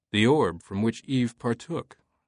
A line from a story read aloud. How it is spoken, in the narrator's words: Langdon said coolly